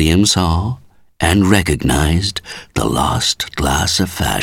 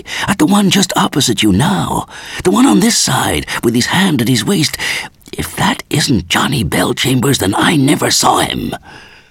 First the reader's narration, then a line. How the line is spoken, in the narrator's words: he whispered eagerly